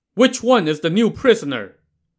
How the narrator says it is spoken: the superintendent shouting

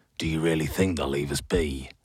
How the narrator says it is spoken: growled Hoth, a grizzled fox who led her cavalry

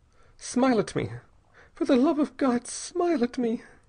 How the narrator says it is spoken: she gasped

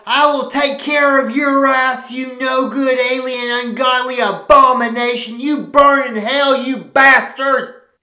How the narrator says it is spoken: Walter yelled

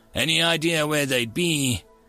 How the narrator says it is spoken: The bat sighed

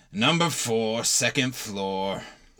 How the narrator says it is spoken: He grunted out

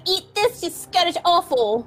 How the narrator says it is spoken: Tilly just yells at it

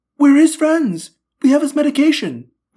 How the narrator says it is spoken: I blurted

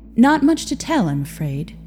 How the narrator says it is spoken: Ingrid said with a sigh

